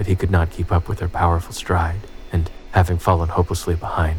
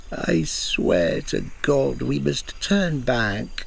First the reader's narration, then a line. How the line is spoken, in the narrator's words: said Cook in a sobbing voice